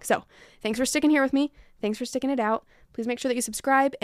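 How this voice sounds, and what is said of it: Strained, failing voice. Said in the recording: “I have now lost my voice by the end of this episode ... I've got a little sinus thing happening.”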